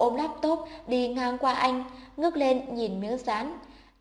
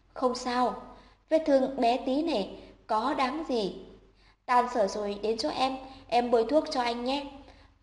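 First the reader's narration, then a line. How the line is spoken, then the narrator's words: Softened, quiet. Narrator (Vietnamese): mặt anh dịu lại khẽ nói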